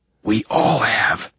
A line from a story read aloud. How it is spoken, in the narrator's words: he whispered angrily